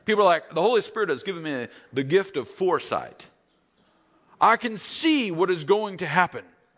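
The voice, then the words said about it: Put-on Southern US accent. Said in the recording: “Suddenly I slipped into a southern accent.”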